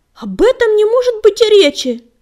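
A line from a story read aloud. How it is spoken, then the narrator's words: Passionate exclamation. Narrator (Russian): горячо воскликнул Дым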